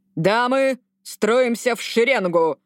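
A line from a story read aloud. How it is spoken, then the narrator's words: Barking. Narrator (Russian): рявкнул Гаррет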